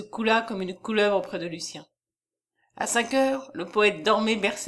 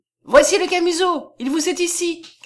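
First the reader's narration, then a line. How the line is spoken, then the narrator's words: Shouted. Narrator (French): cria-t-elle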